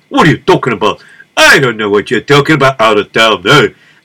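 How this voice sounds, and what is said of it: New York accent. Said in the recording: “Can't you tell by my accent? I always grew up in New York.”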